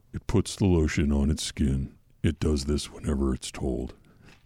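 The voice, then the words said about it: Deep creepy Buffalo Bill character voice. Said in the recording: “your Buffalo Bill impression ... Deeper ... He's not whining.”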